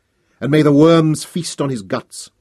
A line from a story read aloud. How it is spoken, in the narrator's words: cried